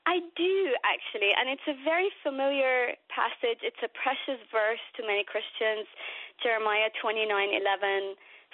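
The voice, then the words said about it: Speaks with a noticeable accent. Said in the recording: “Love your voice and your accent.”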